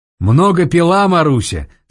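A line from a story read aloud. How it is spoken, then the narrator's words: Asked in Russian. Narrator (Russian): спросил один по-русски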